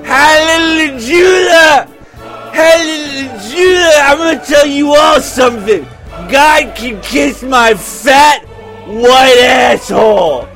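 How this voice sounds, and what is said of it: Drunk priest character voice. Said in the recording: “That's my impression of a drunk priest.”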